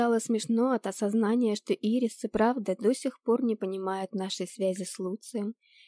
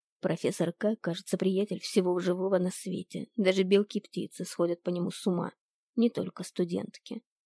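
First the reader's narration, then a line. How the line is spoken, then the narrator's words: Grumbling. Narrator (Russian): проворчал Пегас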